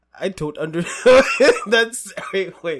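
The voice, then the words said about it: Attempted German accent, sounding Indian. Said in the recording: “I can't do a German accent or a European accent... I'm assuming it would sound something like... You're gonna end up sounding Indian.”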